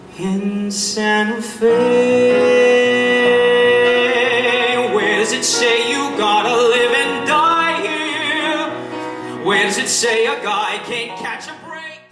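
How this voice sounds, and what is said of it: Singing in heavy New York accent. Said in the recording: “Even saddled with a heavy New York accent, he breaks out with crystal clarity ... occasional leaps into a higher register”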